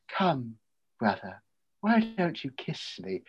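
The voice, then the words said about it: Impression of Lucy from Dracula. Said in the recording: “that was a great impression.”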